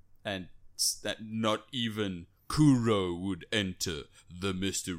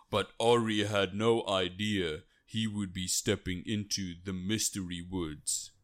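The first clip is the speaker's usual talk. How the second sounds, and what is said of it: Impression of the game's narrator. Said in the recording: “you do a great impression, by the way. It was spot on.”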